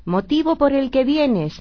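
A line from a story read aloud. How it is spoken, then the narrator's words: Children shouting in chorus. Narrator (Spanish): gritaron los niños a coro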